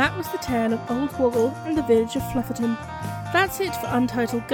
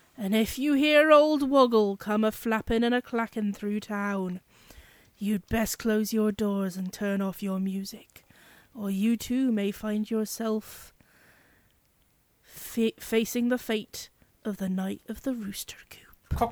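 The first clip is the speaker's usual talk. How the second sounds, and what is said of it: Deep West Country accent. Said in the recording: “a West Country accent done a bit deep”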